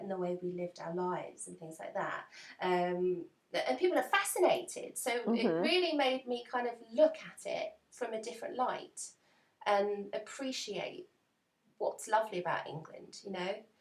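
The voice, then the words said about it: English accent. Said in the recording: “someone here hears an English accent ... I just love her accent”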